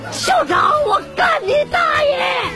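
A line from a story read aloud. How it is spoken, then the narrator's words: Students shouting in unison. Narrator (Chinese): 高二同学齐声呼喊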